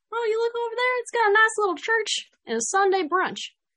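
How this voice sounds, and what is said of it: Put-on country accent. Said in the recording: “the country accent it just comes right out”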